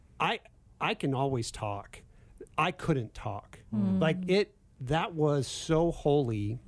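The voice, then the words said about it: Emotional, choked-up voice. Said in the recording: “getting emotional”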